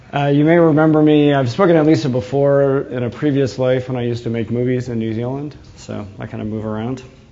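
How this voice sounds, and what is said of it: New England American accent. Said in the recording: “as you can tell from my accent, I'm actually from New England, not Old England”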